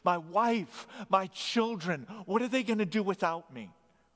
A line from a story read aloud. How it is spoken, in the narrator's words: who cried out in desperation